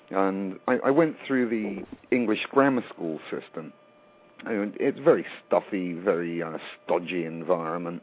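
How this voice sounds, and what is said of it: English accent. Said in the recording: “I grew up in England. You can probably tell by my accent.”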